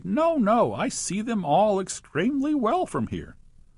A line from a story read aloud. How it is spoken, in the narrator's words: The poor old dentist, weeping in despair, he cried